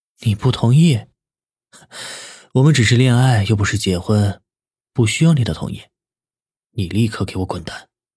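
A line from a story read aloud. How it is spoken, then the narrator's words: Cold laugh. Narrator (Chinese): 南离川冷冷的一笑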